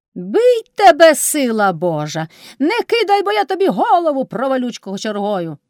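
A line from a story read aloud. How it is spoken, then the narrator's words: Shouted. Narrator (Ukrainian): крикнула кайдашиха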